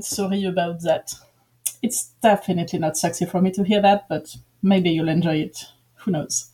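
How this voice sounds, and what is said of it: Exaggerated cringy French accent. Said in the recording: “this is me speaking with a really cringy French accent”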